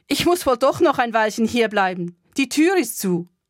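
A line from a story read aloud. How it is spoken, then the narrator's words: Loud call to residents. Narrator (German): Laut rief ich den Bewohnern zu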